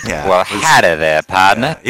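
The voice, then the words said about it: Put-on Texas southern accent. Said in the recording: “Texas, distinct southern accent... southern accent... that was pretty good”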